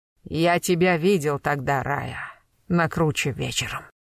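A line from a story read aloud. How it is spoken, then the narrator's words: Muffled, exhausted. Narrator (Russian): глухо, обессиленно молвил Тигран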